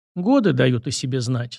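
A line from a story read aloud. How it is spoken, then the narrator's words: Weary, heavy sigh. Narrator (Russian): сказала она и тяжело вздохнула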